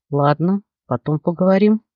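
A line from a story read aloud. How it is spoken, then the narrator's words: Grumbled mutter. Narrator (Russian): буркнул Алекс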